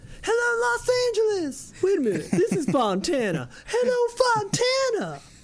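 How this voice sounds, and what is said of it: Imitates another person's voice. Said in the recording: “I only do that voice because I saw a Kiss there at a, like, concert way back when. And Paul Stanley goes...”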